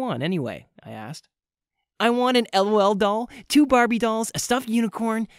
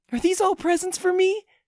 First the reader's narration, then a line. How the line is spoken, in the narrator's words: she squealed